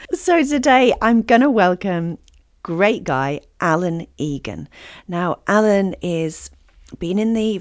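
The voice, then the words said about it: Slightly croaky voice. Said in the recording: “my slightly croaky voice. I've got a cold and it's decided to just go straight to my voice”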